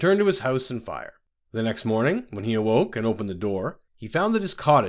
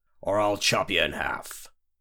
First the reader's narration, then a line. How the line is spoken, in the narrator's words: growled